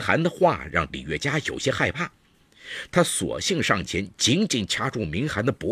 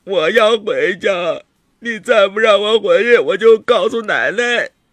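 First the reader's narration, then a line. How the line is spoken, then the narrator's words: Crying. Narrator (Chinese): 明涵哭着说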